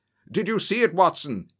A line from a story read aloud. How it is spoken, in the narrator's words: he shouted